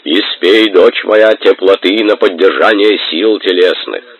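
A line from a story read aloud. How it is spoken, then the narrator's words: Deep bass. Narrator (Russian): громоздкий краснолицый с рыжей бородой диакон пробасил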